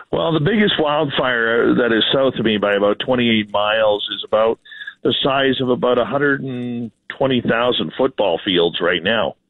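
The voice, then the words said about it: Slightly hoarse voice. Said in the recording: “my voice is a little hoarse, but we've had 24 hours of really heavy forest fire smoke here”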